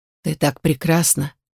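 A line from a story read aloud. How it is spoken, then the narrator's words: Whisper. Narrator (Russian): прошептал Эльдер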